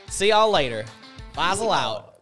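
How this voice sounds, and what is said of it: Put-on southern accent. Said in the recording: “This is my southern accent.”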